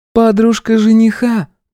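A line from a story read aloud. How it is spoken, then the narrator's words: Correcting, plain. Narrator (Russian): поправила Дарлин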